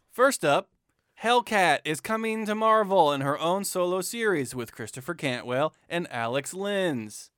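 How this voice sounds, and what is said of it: Flat, deadpan announcement. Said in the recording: “That intro was a little deadpan”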